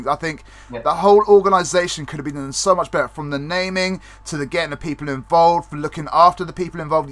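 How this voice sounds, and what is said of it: Speaks with a noticeable accent. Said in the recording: “your lovely accent”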